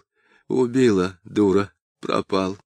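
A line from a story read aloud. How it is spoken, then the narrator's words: Clear and sad. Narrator (Russian): Он четко и грустно говорил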